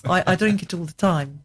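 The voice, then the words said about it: Put-on South African accent. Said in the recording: “that's my South African accent ... Her South African accent has a tendency to degenerate into Welsh after a couple of sentences.”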